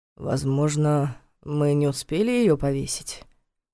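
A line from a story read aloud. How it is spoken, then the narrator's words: Uncertain suggestion. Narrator (Russian): неуверенно предположил он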